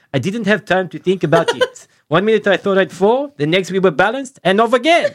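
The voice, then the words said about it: Put-on French accent. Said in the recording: “here comes my French accent”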